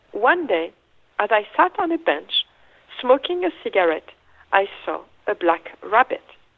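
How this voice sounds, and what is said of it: English with a French accent. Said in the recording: “You're very good with the French accent ... So we have a French David Hockney now”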